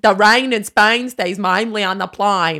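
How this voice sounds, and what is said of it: Wobbly put-on Cockney British accent. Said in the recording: “it's a little bit Australian ... it will turn into Southern ... You cannot sustain your Cockney accent.”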